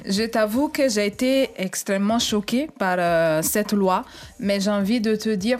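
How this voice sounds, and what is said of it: French with an Italian accent. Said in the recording (French): “tu entends son petit accent ... Parce qu'elle est italienne aussi.”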